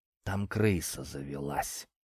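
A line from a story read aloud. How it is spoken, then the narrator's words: Reluctant mutter. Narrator (Russian): неохотно буркнул Сурков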